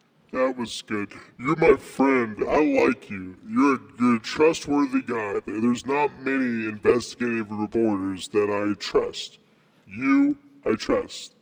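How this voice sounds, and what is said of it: Demonic, electronically altered voice. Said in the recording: “When I hear your voice, it sounds almost as if you're a demon ... It's a voice changer.”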